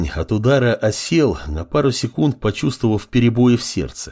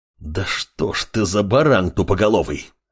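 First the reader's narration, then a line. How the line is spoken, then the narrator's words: Growl. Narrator (Russian): Рыкнул Амор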